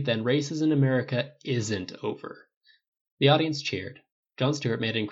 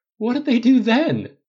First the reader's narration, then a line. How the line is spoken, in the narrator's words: Cap gasped out